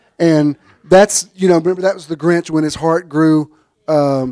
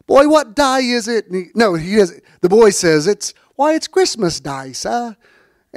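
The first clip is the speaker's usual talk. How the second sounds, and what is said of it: Put-on Cockney accent. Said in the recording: “my Cockney accent”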